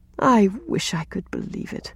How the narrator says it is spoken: sighed Rilla

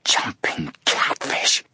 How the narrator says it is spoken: Joe whispered hoarsely

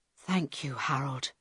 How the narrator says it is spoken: Carl whispered

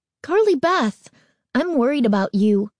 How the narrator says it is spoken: Sabrina cried, eyeing her friend with concern

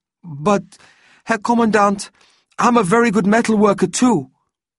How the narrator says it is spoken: a boy of about 16 called out

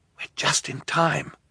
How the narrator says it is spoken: Klaus whispered to Violet

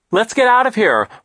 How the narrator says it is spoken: Violet shouted over the noise of the thunder

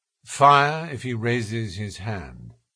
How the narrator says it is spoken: said Holmes quietly

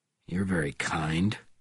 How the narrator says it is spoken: he said coldly

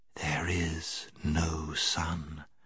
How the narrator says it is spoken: Slowly and gravely the witch repeated

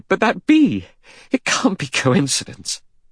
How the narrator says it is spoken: Vera cried

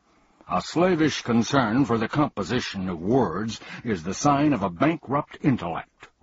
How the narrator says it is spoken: roared the humbug, waving his cane furiously

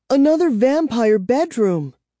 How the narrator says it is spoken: Kara cried

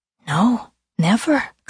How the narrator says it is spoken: Claire whispered

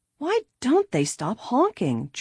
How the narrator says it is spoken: George exclaimed impatiently

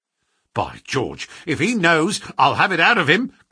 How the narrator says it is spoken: cried Lestrade

